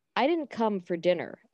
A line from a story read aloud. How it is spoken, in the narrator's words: Emma says flatly